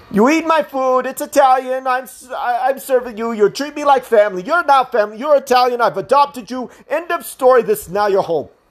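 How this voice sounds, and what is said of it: Goofy put-on Italian accent. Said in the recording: “I know I'm putting on a goofy-ass accent ... I can't really talk the way some of my Italian cousins talk”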